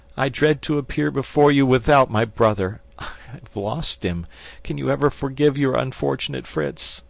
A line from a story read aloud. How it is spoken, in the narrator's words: said he, sobbing